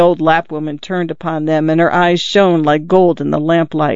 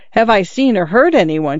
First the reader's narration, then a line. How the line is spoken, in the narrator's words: cried